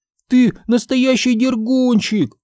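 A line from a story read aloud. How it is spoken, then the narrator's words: Shout. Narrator (Russian): крикнула она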